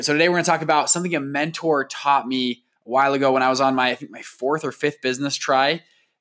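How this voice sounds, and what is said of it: Hoarse, partly lost voice. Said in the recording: “excuse my voice. I'll tell you the story of why it is gone”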